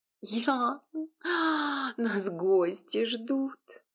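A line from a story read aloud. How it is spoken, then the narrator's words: Breathless moan. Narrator (Russian): простонала девушка в перерывах между моими ласками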